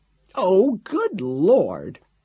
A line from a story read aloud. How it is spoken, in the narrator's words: exclaimed on seeing him